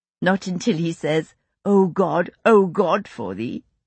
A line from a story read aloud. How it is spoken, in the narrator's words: Rachel said, succumbing to a giggle